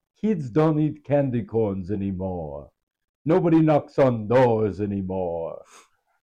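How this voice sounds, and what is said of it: Imitates another person's voice as Dracula. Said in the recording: “my impression of Dracula Sebastian Maniscalco”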